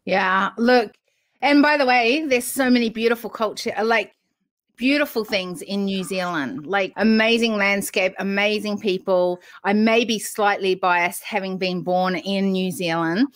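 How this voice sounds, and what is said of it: Slight New Zealand twang. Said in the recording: “there's a bit of a twang there”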